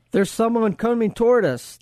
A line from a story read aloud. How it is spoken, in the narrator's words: the frontline sentry cried